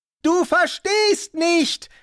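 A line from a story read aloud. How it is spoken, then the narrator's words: Shouting over deafening wingbeats. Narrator (German): rief der Tourist aus vollem Hals, um das ohrenbetäubend laute Pochen der Flügelschläge zu übertönen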